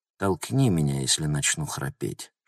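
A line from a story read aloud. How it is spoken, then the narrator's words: Female whisper. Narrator (Russian): шепнула она Логану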